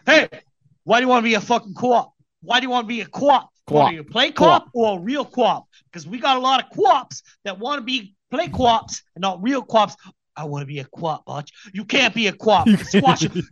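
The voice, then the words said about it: Imitated Boston accent, yelling. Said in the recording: “Baldwin's Boston accent is great. Sheen's Boston accent is great. Wahlberg's is great ... were they yelling?”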